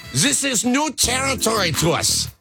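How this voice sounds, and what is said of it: Put-on German accent. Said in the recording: “German accent, please.”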